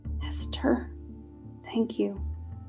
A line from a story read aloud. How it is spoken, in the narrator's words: whispered